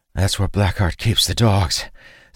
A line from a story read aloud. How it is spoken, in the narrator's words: Sane said, panting